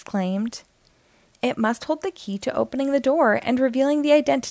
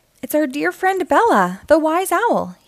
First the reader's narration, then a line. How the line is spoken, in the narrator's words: he exclaimed